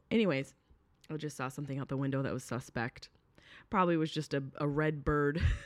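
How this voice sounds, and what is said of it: Hoarse, worn-out voice. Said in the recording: “I don't know if you can hear in my voice... My voice is shot. It's shot from screaming and laughing so hard”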